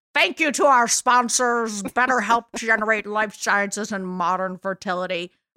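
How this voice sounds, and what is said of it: Sean Connery impression. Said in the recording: “I do accents sometimes. It's my Sean Connery.”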